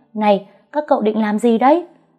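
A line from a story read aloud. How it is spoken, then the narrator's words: Loud alarmed shout. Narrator (Vietnamese): tôi liền hét toáng lên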